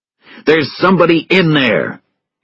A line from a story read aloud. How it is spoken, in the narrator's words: He shouted to Russell